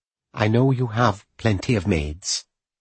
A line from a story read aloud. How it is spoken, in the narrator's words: she added quietly